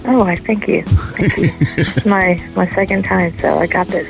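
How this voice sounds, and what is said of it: Smooth polished radio voice. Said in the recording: “You sound wonderful for a woman who's in labor. ... You're even in radio voice.”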